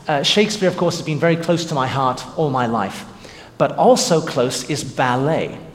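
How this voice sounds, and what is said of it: English accent. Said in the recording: “having grown up in England, as you probably can tell from my accent”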